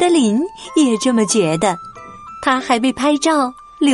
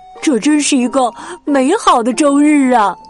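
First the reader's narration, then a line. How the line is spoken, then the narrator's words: Happy exclaiming. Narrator (Chinese): 特欧高兴的感叹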